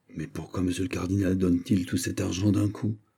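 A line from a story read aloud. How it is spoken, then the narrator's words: Whispered question. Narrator (French): demanda tout bas monsieur le prince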